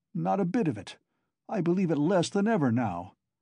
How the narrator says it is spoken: Zamatov cried hastily

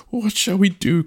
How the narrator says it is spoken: cried the chief

